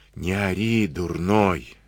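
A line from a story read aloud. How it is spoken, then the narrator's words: Threatening whisper. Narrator (Russian): шепотом стращал Дениска барана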